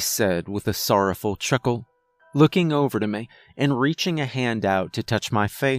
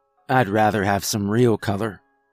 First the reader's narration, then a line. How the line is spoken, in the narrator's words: I chuckled